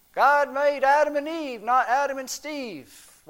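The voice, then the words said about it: Put-on Southern US accent. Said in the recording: “Why am I giving them a southern accent?”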